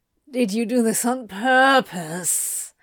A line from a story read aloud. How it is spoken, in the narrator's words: Crowley groaned